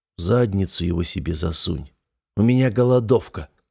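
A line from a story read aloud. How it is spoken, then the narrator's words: Habitual grumble. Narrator (Russian): буркнул я привычно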